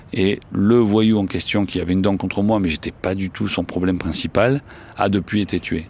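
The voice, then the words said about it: Marseille French accent. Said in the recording (French): “j'ai un accent marseillais”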